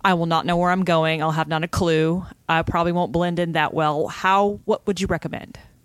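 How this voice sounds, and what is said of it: Southern drawl accent. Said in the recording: “I'll have an accent there ... I have a southern drawl”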